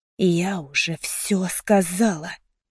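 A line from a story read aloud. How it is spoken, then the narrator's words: Hissed, holding back trembling. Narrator (Russian): прошипела я, стараясь не дрожать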